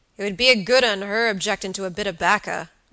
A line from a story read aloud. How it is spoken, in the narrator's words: growled Mr